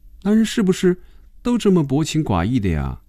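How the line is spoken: Soft sigh. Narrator (Chinese): 菲比轻轻地叹了口气说

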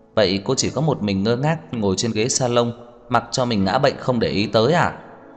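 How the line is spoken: Laughing question. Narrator (Vietnamese): Trang Hạo Nhiên bật cười hỏi

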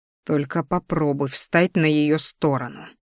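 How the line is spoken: Silent mental hiss. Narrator (Russian): мысленно зашипел

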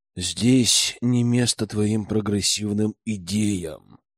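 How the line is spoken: Exasperated exhale. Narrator (Russian): выдохнул я не сдержавшись

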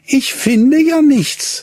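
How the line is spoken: Disappointed cry. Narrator (German): rief sie enttäuscht

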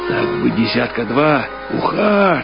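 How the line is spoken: Excited anxious whisper. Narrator (Russian): шептал капитан с восторгом и тревогой

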